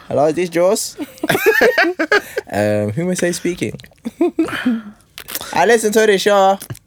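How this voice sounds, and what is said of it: Put-on unidentified accent. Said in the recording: “what accent's that?”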